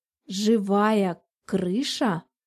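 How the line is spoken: Slow, savoring each word. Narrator (Russian): переспросила она так медленно, словно пробовала каждое слово на вкус

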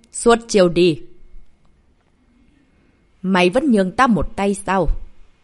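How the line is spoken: Astonished and angry. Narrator (Vietnamese): vừa kinh ngạc vừa giận dữ

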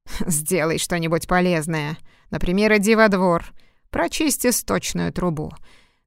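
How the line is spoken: Rough command. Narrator (Russian): грубо приказала она

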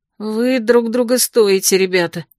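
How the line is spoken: Grumbling. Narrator (Russian): проворчала я

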